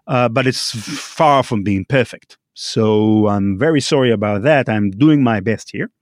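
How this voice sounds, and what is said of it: Non-native English accent. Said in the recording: “I'm not a native English speaker ... the accent I have today, which is not a very common accent for Israelis to have”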